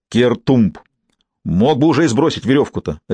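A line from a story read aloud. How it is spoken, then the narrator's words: Barking angrily. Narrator (Russian): рявкнул Симон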